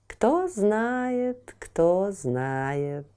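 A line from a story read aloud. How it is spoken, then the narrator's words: Mysterious purr. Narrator (Russian): загадочно промурлыкал Котофей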